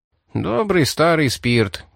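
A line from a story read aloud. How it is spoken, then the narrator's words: Sigh. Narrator (Russian): вздохнул Рип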